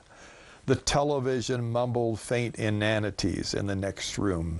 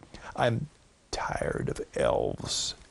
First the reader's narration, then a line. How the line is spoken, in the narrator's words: she whispered